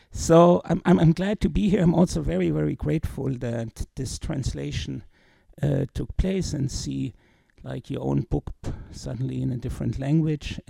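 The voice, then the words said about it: Heavy German accent in English. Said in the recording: “it sounds a little bit rusty or with a heavy German accent”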